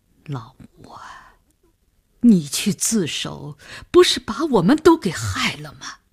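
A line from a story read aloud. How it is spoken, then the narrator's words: Near tears, resentful. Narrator (Chinese): 郑百祥皱着眉头，几乎也要哭出来了，他的语言已经注入了怨恨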